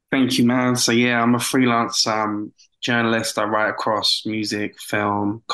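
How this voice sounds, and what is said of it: British accent. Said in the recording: “my British accent. I promise I don't sound like Sherlock Holmes, though.”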